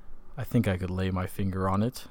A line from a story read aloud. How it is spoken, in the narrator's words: said Holmes quietly